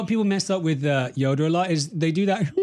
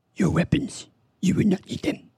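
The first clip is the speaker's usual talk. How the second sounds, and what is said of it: Yoda impression. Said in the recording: “my best Yoda impression ... That's really good. That's really good.”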